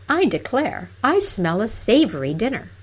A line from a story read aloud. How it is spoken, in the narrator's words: she cried suddenly